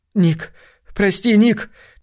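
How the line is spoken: Heavy exhale. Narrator (Russian): тяжело выдохнула Китти

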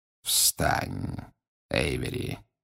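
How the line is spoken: Quiet. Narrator (Russian): тихо сказал Волан-де-Морт

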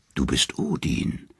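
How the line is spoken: Three norns whispering. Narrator (German): flüstern die drei Nornen

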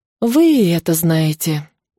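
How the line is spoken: Weary sigh. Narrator (Russian): устало вздохнула

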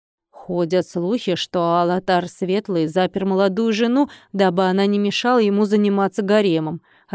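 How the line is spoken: Plain. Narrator (Russian): ответил гость

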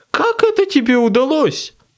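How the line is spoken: Shrill squeal. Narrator (Russian): взвизгнул он

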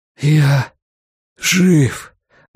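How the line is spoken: Breathless gasp, then crying. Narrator (Russian): выдохнул Стью Редман

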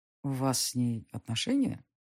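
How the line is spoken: Muffled question. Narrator (Russian): глухо спросил Денис

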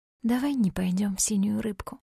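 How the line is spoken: Whispering. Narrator (Russian): прошептала я

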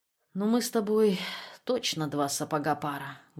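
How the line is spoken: Sad, smiling. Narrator (Russian): грустно улыбнулся он

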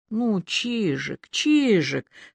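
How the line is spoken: Calm, tender. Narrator (Russian): сказал он неожиданно спокойно, даже ласково

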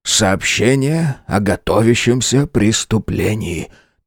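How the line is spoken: Tragic whisper. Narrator (Russian): трагическим шепотом ответил я

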